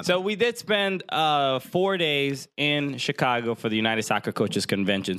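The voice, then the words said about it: Hoarse, worn-out voice. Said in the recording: “my voice is completely shot. ... Our voices are both gone.”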